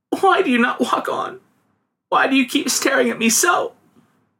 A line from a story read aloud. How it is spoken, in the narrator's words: sobbed the girl